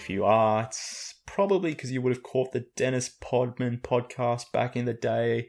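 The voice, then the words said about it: Speaks with a distinctive accent. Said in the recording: “You may be familiar with my voice or my accent.”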